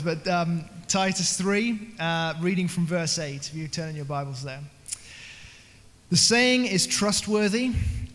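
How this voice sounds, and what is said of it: British accent. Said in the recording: “a British accent ... the Brit ... in the best James Bond accent that he can have”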